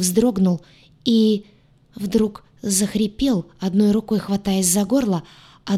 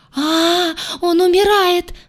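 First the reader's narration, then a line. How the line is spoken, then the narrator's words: Wail. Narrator (Russian): завопила Айя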